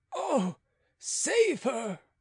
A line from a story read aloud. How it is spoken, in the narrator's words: cried Beausire